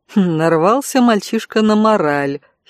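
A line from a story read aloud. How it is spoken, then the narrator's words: Inward giggle. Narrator (Russian): хихикнула про себя Виктория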